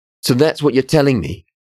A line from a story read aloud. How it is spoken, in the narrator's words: The words blurted from Amir's mouth like gas from a blown airlock